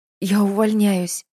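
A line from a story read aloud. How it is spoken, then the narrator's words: Forced out between sobs. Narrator (Russian): выдавила Надя в промежутке между рыданиями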